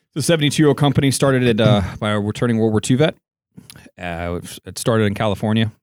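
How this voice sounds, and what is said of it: Mid-Atlantic accent. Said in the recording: “That's a good mid-Atlantic accent you have there.”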